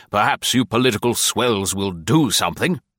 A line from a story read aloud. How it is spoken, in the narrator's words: an old colonel growled